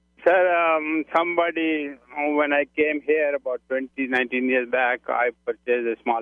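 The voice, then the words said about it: Strong foreign accent. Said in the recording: “You know, you sound like you got here yesterday afternoon... my accent remains the same... I love the accent.”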